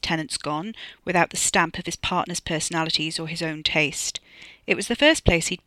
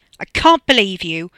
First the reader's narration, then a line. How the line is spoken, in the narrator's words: Tina snapped at him